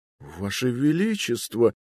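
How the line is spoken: Tearful stammering. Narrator (Russian): пролепетал Энрике, и на его глазах заблестели слезы

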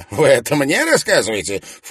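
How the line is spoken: Snort. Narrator (Russian): фыркнул Редж

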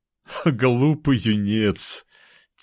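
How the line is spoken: Laughing. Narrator (Russian): он смеялся

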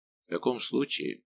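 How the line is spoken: Calm nobleman. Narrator (Russian): сказал дворянин столь спокойно

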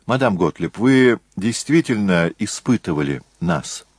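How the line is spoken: Plain question. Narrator (Russian): спросил Джессон

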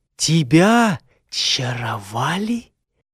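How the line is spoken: Almost whispering. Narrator (Russian): наемница произнесла почти шепотом

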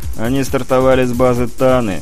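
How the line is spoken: Sighing. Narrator (Russian): Голиков снова вздохнул

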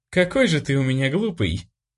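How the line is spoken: Pleased laughter. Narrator (Russian): довольно рассмеялась она

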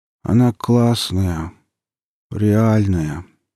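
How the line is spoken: Lazy mumble. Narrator (Russian): лениво пробормотал ересь

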